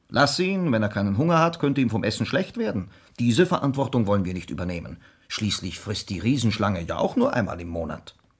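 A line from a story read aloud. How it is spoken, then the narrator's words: Father, stern like policeman. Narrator (German): sagte mein Vater streng wie ein Polizist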